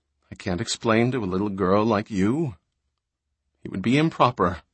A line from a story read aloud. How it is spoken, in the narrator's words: Lady Calia muttered